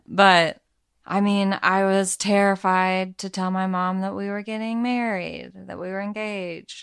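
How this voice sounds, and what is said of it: Subtle Arkansas accent. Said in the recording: “So I'm from Arkansas ... If you haven't guessed from ... subtle accent.”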